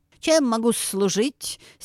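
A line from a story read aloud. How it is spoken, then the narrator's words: Heavily lisping question. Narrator (Russian): Сильно шепелявя спросил петух у медведя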